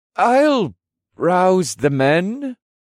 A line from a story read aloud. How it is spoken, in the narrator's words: Riondale said in an awkward tone, and I could tell he felt like he was intruding on something private